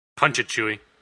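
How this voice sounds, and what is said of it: Han Solo impression. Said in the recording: “my Han Solo impression ... That was really good. You sound just like him.”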